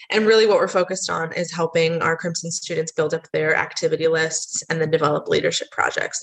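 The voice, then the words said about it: American accent. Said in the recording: “I am from the States, which you can probably tell from my accent”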